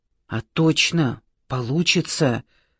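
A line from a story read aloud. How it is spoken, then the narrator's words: Whisper. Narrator (Russian): прошептал Марат Андреевич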